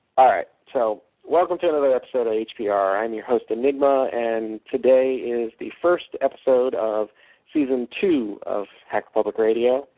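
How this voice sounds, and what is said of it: Radio announcer voice. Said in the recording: “Get my radio voice.”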